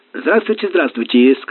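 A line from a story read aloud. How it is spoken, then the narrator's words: Warm, cheerful, easy. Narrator (Russian): сказал Бангал, сияя задушевной улыбкой, так весело и непринужденно, словно встретил старого доброго друга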